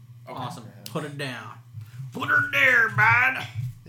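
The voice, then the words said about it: Heavy put-on accent. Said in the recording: “You went heavy on that accent. ... It's in my blood.”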